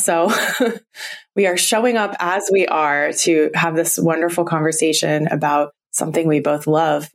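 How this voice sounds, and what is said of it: Husky voice from illness. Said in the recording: “getting over some sickness ... my voice sounds a little bit huskier than normal”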